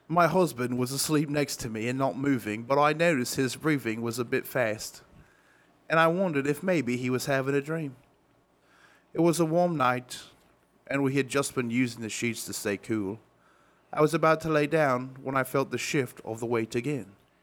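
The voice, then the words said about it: Put-on Cockney accent. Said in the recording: “I'll do it in a Cockney accent.”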